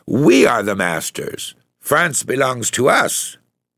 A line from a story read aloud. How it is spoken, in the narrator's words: getting excited, he exclaimed